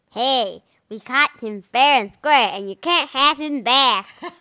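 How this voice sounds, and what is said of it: Upset baby fish character voice. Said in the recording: “是什么样腔调的 baby fish？ ... He's an upset fish accent”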